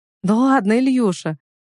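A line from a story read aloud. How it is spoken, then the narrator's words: Light warm laugh. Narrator (Russian): Я рассмеялась, чувствуя легкость и тепло от его подколок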